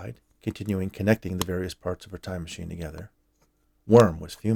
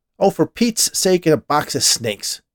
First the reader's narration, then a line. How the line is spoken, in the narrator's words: Worm said loudly